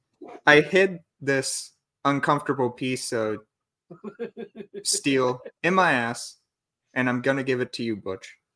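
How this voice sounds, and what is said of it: Imitates another person's voice. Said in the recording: “Christopher Walken is the hardest impersonation to do”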